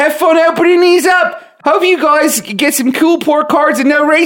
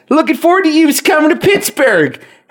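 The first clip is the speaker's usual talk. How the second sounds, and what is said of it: Put-on Philly accent. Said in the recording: “I think he's trying to do that in a in a, a Philly accent”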